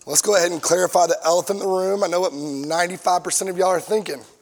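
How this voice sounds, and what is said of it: Strained, hoarse voice. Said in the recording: “apologize for my voice.”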